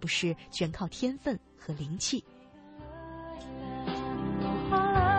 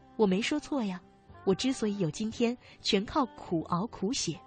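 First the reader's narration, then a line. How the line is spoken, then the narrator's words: Smiling. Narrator (Chinese): 巴尔扎克笑一笑说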